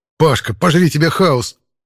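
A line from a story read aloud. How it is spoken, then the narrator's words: Hissing. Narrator (Russian): прошипел я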